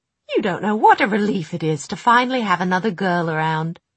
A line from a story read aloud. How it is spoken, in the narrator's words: she said cheerfully